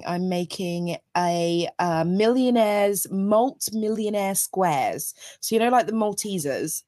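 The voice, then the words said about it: Croaky voice. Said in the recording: “my voice has gone funny ... croaky voice”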